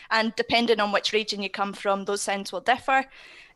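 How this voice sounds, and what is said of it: Eastern Scottish accent. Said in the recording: “I don't think that's a Glasgow accent you've got, is it? ... No, it's not. ... Not so much further north, but definitely east. ... In Scotland”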